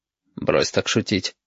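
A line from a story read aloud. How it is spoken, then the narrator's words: Stern. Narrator (Russian): строго проговорил Валентин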